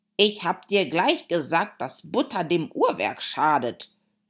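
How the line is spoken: Added angrily. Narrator (German): fügte er hinzu wütend

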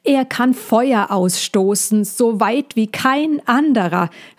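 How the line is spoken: Calling out after a fall. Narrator (German): rief der Igel, als er sich wieder aufrichten konnte

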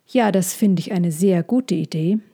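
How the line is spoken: Plain. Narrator (German): sagte sie

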